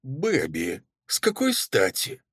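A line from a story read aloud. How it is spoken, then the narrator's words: Trembling unsure voice. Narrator (Russian): начала она, но голос неуверенно дрогнул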